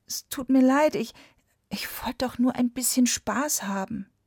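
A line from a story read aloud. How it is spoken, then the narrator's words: Meek, dejected whisper. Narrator (German): Da bekam der Puhvogel ein ganz verzagtes Gefühl und flüsterte kleinlaut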